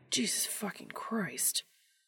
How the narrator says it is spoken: muttering

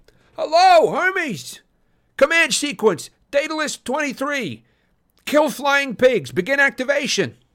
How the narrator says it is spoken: I yelled

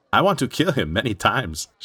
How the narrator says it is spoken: she laughed

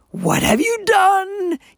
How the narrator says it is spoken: he wailed

